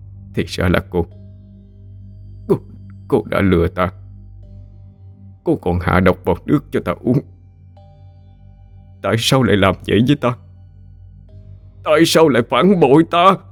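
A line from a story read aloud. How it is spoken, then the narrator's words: Weak, harsh voice. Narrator (Vietnamese): Hắn gằn giọng yếu ớt nói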